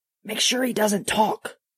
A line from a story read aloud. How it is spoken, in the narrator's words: Peter hissed over his shoulder